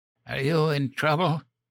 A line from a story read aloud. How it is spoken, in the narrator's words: Grandma wheezed